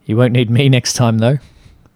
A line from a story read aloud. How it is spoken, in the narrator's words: Patrick laughed